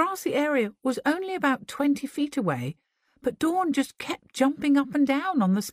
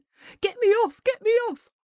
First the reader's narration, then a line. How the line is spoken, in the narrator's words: terrified, started frantically yelling